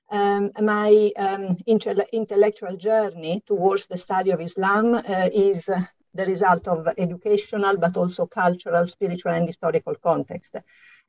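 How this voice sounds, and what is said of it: Slight Italian accent. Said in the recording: “as you can hear from my slight accent, I'm Italian”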